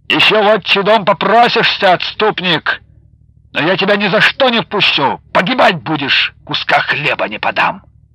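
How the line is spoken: Furious parting shout. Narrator (Russian): Федор с яростью выкрикнул ему напоследок

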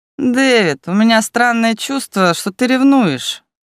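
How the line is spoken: Snide, smiling. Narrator (Russian): ехидно улыбнулся Ярвуд

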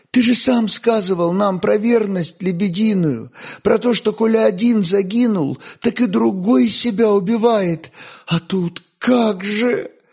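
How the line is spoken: Sobbing. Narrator (Russian): зарыдала я

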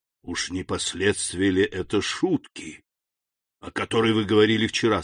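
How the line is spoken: Hoarse. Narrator (Russian): сказал он хрипло

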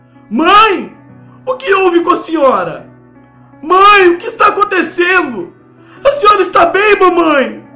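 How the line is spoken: Frightened shouting. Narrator (Portuguese): Eu fiquei assustado e comecei a gritar

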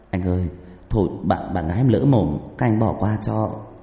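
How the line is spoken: Young man, trembling voice. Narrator (Vietnamese): Người thanh niên ... giọng run rẩy

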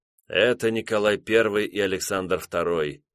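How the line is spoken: Dejected voice. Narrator (Russian): упавшим голосом отметил

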